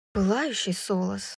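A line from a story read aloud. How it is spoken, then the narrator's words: Muttering. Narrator (Russian): пробормотала Брайс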